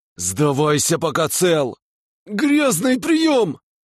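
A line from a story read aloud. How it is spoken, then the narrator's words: Shout while struggling. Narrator (Russian): выкрикнул князь, пытаясь вырваться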